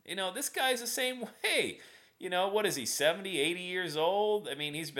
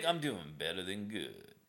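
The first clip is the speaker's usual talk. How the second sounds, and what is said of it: Southern drawl imitating Zig Ziglar. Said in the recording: “Zig's Southern drawl”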